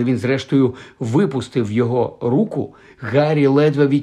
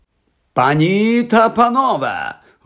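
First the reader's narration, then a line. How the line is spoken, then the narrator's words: Loud exclamation. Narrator (Ukrainian): голосно вигукнув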